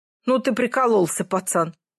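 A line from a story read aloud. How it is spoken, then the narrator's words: Chuckled. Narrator (Russian): хохотнул тот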